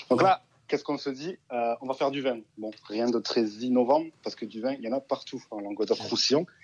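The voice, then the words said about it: Southern French accent. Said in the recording (French): “on a entendu le joli accent”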